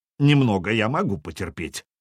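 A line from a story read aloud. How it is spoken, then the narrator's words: Deep bass voice. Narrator (Russian): пробасил пешеход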